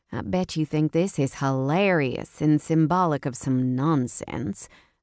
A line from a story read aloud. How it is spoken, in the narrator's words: I muttered